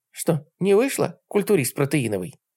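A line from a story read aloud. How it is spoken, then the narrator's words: Quiet mutter. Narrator (Russian): Тихо буркнул я себе под нос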